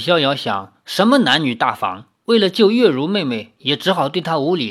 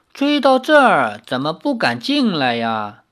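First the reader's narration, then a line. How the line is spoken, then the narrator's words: Laughing. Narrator (Chinese): 姬三娘却笑道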